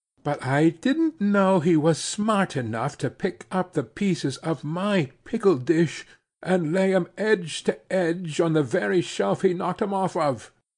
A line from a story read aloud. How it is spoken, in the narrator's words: she said in a high voice